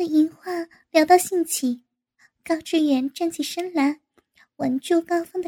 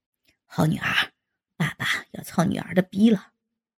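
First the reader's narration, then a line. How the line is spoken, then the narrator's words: Breathless. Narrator (Chinese): 高志远气喘吁吁的道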